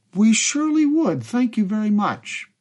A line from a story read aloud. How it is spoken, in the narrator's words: Waltke responded warmly